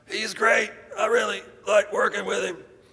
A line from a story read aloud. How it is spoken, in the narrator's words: My throat was so sore I could barely say anything, but I managed to croak out